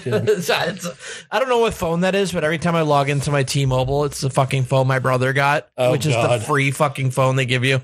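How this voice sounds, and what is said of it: Hoarse, strained, fading voice. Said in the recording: “scream my voice out ... as I lose my voice”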